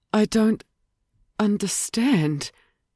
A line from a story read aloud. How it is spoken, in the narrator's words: Ruby murmured